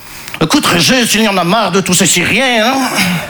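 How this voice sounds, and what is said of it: Put-on Belgian French accent. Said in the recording (French): “je prends l'accent belge parce que je ne sais pas faire l'accent chinois”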